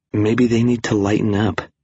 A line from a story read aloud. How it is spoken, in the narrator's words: she whispered